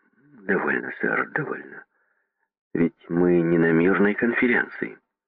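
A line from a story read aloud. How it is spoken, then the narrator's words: Calm. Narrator (Russian): спокойно сказал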